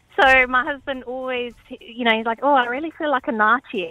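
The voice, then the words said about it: South African accent. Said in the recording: “South African accent, you would pronounce it nachi”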